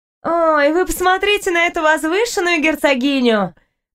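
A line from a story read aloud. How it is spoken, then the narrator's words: Girl's contemptuous laugh. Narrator (Russian): Презрительно засмеялась девушка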